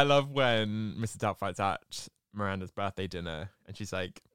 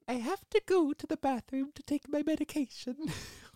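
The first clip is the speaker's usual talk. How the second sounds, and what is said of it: Mrs. Doubtfire impression, Welsh-tinged accent. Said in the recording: “there's that Welsh accent coming in.”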